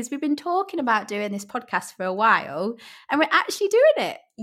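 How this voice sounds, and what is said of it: Yorkshire accent. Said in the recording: “my Yorkshire accent might come across a little bit inaudible”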